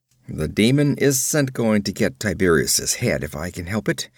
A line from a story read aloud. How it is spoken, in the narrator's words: he growled